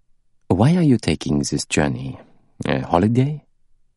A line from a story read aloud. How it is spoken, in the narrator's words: he said in a friendly tone